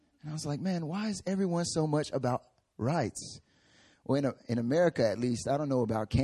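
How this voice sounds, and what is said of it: Usual voice. Nothing is said of it.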